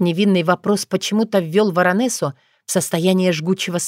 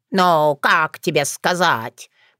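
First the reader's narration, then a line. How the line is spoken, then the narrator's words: Grumbling. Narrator (Russian): проворчала она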